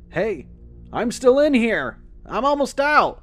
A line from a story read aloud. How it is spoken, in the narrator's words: Liam's voice called out from the mill